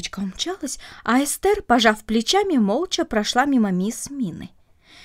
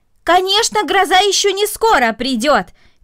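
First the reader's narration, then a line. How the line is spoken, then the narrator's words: Shout. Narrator (Russian): крикнула мисс Мина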